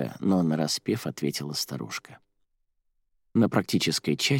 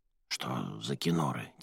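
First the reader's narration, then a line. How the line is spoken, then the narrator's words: Quiet question. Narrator (Russian): тихонько спросила Арадия у Филероши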